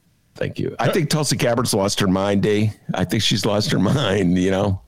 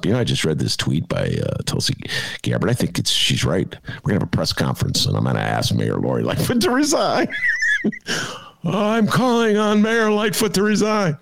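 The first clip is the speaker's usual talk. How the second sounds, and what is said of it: Imitates another person's voice. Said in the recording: “It's my Joe Biden imitation. ... That's good.”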